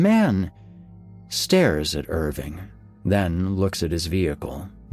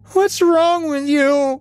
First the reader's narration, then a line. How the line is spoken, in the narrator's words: she wails